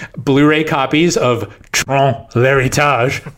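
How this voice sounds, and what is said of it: Odd New Orleans-tinged French accent. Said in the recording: “my like weirdly New Orleans rendition of a French accent, saying the French title of Tron Legacy”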